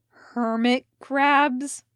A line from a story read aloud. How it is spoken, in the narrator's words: Elliot growled